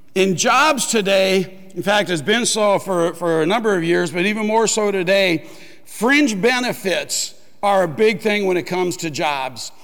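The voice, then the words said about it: Rough, strained voice. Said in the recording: “My voice is just a little bit rough this morning ... I may have over-whispered my voice by just a hair”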